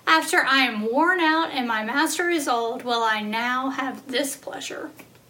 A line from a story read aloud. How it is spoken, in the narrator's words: Sarah laughed to herself as she thought